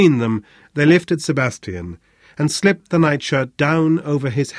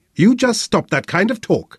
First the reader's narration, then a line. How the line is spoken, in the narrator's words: snapped Rosa with unnecessary violence